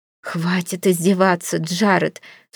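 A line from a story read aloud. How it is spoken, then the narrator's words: Sobbing. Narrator (Russian): всхлипываю я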